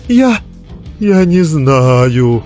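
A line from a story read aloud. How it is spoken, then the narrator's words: Whimpering. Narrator (Russian): захныкал он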